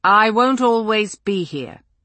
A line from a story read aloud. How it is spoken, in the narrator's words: he said eventually